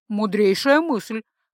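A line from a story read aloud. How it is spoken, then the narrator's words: Chuckling. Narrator (Russian): хохотнул Барс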